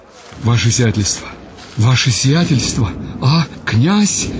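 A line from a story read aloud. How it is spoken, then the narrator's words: Trembling, breathless voice. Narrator (Russian): дрожащим голосом сказал подбежавший капитан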